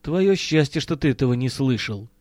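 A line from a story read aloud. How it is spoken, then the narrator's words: Sullen mutter. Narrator (Russian): угрюмо буркнул Миронов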